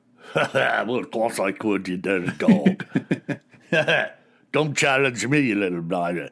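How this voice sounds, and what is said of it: Put-on Scottish brogue. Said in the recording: “Can you do a Scottish brogue?”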